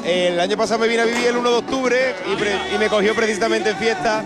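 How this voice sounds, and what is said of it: Andalusian Spanish accent from Cádiz. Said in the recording (Spanish): “¿Por qué ese acento? ... Yo soy de Cádiz, un pueblo de Cádiz.”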